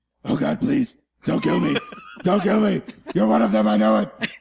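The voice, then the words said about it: Batman character voice. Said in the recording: “Was that your Batman?”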